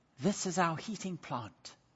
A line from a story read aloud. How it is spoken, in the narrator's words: their guide whispered